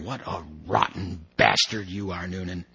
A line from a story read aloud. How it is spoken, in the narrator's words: muttering